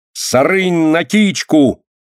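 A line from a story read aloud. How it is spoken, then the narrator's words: Bold, desperate shouting. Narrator (Russian): с удалью и отчаянием кричала она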